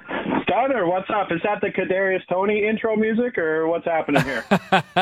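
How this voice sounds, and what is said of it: Ontario Canadian accent. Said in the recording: “I didn't realize how Ontario your accent there was, bud.”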